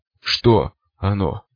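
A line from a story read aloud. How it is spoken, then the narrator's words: Hoarse rasp. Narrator (Russian): прохрипел я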